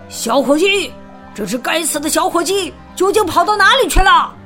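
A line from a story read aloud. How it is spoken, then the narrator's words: Breathless shouting. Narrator (Chinese): 主人加斯顿……边跑边大声叫道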